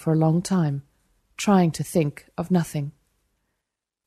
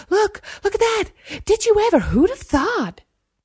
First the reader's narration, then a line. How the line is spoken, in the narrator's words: his peers jabbering excitedly